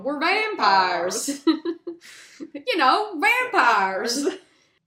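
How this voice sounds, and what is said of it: Very thick put-on accent. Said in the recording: “man with a very thick accent just going”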